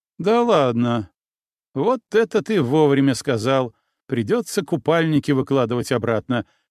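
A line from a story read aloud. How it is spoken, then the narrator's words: Short laugh, female. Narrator (Russian): хохотнула она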